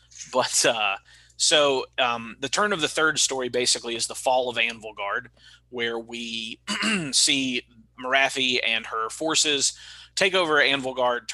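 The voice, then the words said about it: Mississippi Southern accent. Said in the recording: “a fucking kid out of Mississippi ... You just have to deal with my accent while I say the words”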